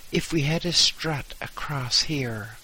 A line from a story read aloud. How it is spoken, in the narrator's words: said